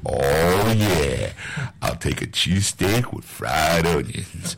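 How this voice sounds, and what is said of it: Put-on sexy voice. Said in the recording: “give us your sexy voice”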